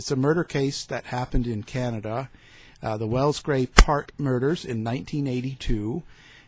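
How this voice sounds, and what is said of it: Canadian accent. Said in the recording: “I detect a Canadian accent.”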